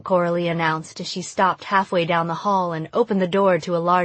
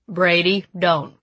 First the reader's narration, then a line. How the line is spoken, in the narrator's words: Uncle Boone said in a stern voice